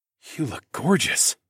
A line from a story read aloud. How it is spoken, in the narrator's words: I gasped